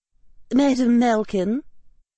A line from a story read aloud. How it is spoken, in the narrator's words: said Professor McGonagall, her voice calm